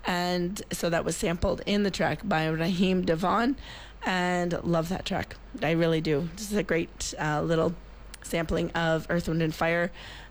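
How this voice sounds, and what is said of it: Hoarse, raspy voice. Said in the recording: “I'm a little hoarse in the voice tonight... it sounds a little raspy and a little fun”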